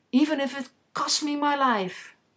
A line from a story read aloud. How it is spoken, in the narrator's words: she cried